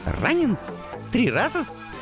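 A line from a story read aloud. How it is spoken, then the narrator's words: Ecstatic squeak. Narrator (Russian): восторженно пискнул крысюк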